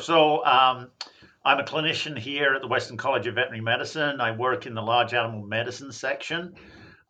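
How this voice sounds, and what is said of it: English accent that sounds Australian. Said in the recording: “everybody's trying to work out whether I'm from Australia or New Zealand. And I should point out I'm actually from England. I don't know what the hell happened to my accent, but it confuses people.”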